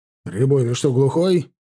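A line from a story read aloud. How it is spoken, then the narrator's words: Barking. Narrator (Russian): рявкнул Чанов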